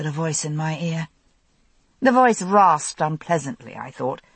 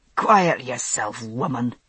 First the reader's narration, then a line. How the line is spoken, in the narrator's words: said the unpleasant, rasping voice